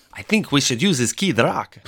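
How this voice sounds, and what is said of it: Put-on German accent, imperfect. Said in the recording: “my German accent was off”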